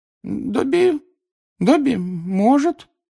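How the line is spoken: Hesitant drawl. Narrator (Russian): неуверенно протянул он

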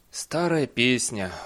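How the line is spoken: Sighing. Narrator (Russian): вздохнул Бейли

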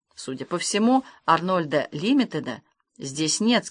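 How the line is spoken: Plain. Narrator (Russian): сказал Масклин

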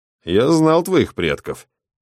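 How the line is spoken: Grumbled. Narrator (Russian): проворчал Расп

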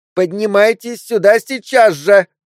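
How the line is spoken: Demanding, capricious girl's shout. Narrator (Russian): Требовательно и капризно крикнула девочка

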